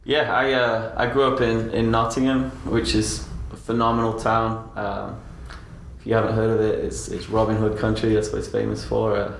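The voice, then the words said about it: English accent. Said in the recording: “from your accent, we know that you're from England.”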